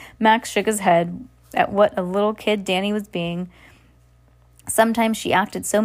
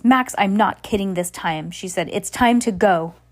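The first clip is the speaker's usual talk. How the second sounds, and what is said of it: Stern mom-like voice. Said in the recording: “put on her mom voice”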